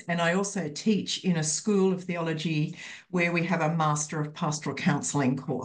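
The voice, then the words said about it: Australian accent. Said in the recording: “everyone loves Australian accents too.”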